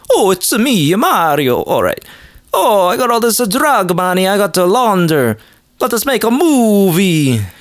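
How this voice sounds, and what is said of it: Put-on Italian accent. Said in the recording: “let me do an accent ... Can I do an Italian one instead?”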